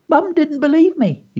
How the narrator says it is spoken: he squeaked

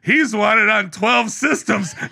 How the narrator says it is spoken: he yells really loud

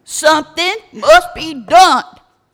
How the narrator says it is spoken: hollered

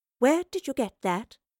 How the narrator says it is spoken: asked as calmly as she could

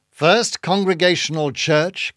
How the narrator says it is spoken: cried Bildad

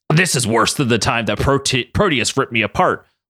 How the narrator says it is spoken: Logan grunted

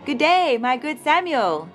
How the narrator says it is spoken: Samuel greeted the prophet cheerfully

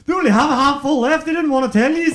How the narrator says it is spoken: he turned around to the crowd and he shouted

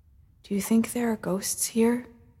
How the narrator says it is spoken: Tiln whispered very quietly to Essel

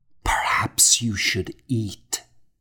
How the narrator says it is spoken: I whispered

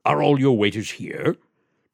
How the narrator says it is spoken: demanded the colonel, in his low, harsh accent

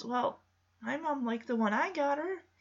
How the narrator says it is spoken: mumbles

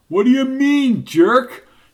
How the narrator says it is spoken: He yelled

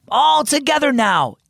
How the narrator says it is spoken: Eva called out

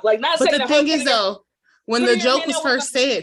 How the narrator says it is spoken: he laughed he was laughing

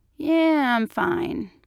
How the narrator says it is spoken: slurred

